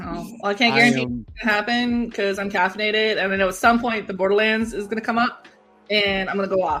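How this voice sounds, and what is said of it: Usual voice. Nothing is said of it.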